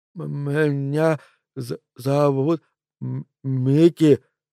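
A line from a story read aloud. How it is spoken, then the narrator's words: Boy forcing words out. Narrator (Russian): выдавил из себя мальчишка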